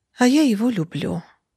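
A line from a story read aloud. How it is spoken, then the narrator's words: Sad confession. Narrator (Russian): грустно призналась Демонесса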